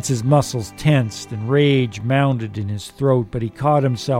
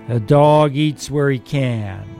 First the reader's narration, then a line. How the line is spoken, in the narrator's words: young Barracoon drawled